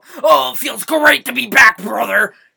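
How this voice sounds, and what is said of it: Imitates another person's voice. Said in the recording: “to do a little Hulk Hogan impression”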